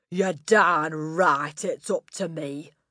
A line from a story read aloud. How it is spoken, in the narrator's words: Miss Trunchbull bellowed